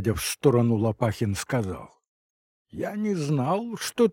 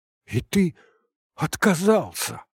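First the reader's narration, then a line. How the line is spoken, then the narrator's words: Frightened question. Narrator (Russian): испуганно спросил Николай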